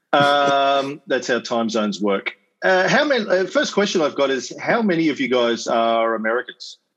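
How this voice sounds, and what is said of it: Australian accent. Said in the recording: “As you can probably gather from the accent, I'm not Belgium... I'm in Brisbane, Australia”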